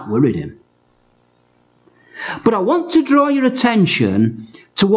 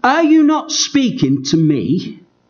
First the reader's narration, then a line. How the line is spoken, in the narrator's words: he said